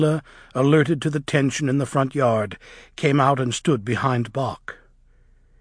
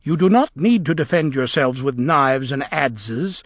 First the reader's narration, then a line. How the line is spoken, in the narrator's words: said the witch coldly